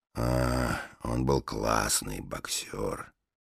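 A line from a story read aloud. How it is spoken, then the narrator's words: Grumbling. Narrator (Russian): пробурчал лесоруб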